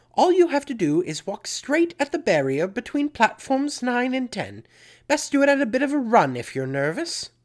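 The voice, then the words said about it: Bad put-on British accent. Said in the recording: “my terrible British accent”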